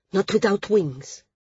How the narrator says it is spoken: Srella said fiercely

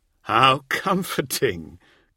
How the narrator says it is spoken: Causewain chuckled with them

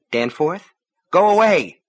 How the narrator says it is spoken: His voice was agitated, but she could not tell if the reason was excitement or fear

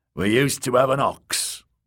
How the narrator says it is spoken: the old man told

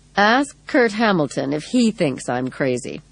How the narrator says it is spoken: Rhoda said calmly

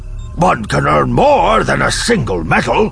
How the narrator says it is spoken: Akbar says, somewhat gruffly

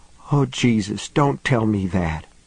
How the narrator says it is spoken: whispered

